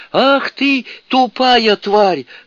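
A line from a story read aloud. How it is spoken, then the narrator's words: Yelling. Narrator (Russian): заорал Шассен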